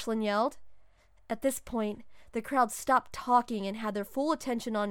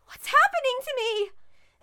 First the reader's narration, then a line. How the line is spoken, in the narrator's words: Mandy shouted, starting to worry